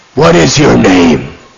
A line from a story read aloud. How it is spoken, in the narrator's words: They roared at him